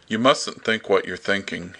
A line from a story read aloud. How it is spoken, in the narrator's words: he said weakly